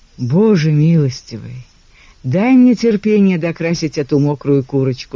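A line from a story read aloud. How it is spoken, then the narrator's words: Exasperated sigh. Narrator (Russian): вздохнул Джейко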